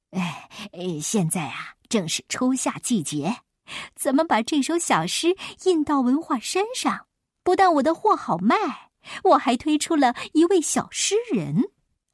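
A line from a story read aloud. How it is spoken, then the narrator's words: Beaming, ingratiating. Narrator (Chinese): 老板满脸堆笑的说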